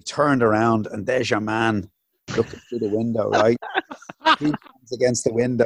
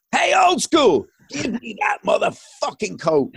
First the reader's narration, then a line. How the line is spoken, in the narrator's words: he was shouting all the place